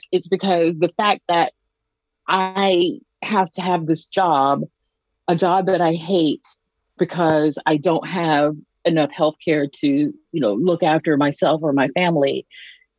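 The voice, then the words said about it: Southern US Georgia accent. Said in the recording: “I'm from Georgia. You know, you may or may not be able to hear that in my accent”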